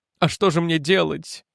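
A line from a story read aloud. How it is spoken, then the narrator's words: Sobbing. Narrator (Russian): всхлипнула она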